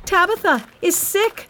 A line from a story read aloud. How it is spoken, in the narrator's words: she shouted to all the poor widows from the church